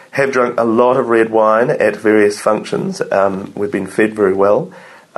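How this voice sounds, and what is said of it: Hoarse, strained voice. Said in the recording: “I'm losing my voice, as you can probably tell from talking too much.”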